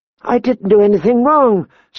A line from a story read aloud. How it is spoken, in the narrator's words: Sansa pleaded with him